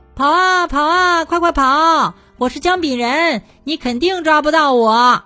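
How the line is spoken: Loud shouting. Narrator (Chinese): 姜饼人 大声喊着

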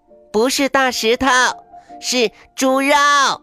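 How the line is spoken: Shouting. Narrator (Chinese): 妮妮喊

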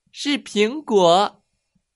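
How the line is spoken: Courageous, loud. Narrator (Chinese): 妮妮 鼓足勇气大声说

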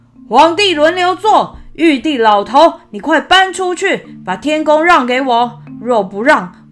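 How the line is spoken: Loud shout. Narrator (Chinese): 孙悟空……大声喊道

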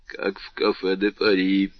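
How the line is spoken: Muttered. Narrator (Russian): пробормотал Данглар

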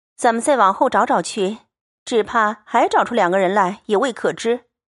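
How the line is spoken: Laughing. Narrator (Chinese): 平儿笑道

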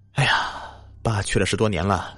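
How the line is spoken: Long sigh. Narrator (Chinese): 小盛长叹了一口气说

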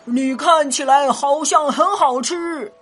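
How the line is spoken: Roaring dinosaur. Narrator (Chinese): 霸王龙立刻吼道

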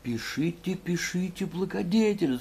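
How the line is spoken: Whispered. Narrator (Russian): зашептал секретарь

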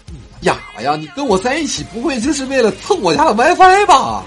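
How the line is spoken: Angry. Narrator (Chinese): 他女朋友怒了

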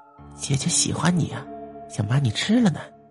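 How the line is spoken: Intimate whisper. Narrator (Chinese): 老板娘凑近小声说

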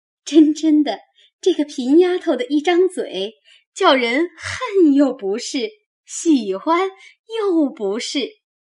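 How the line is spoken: Laughing. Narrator (Chinese): 宝钗也忍不住笑着 说道

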